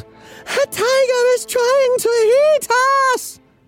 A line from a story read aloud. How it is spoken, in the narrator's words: the workers yelled